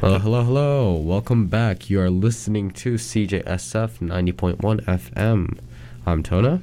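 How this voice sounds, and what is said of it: Muffled voice, sick. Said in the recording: “my voice sounds probably muffled because I'm wearing a mask right now ... because I am sick and I'll be coughing”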